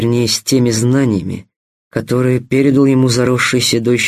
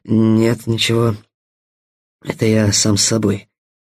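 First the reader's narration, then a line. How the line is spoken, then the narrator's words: Sweaty mutter to himself. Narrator (Russian): пробормотал вспотевший Стас, понимая, что действительно разговаривает сам с собой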